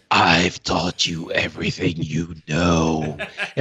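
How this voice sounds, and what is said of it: Reaper character voice impression. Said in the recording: “do the Reaper voice.”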